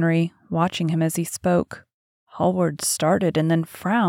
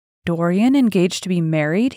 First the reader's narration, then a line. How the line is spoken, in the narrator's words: He cried